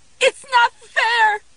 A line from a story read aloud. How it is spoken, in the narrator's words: screamed